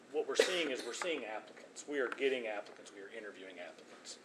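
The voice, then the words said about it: Quiet, worn-out voice. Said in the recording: “You are such a quiet talker. ... My voice is shot.”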